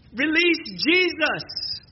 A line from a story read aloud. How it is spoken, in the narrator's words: yelling at the top of our lungs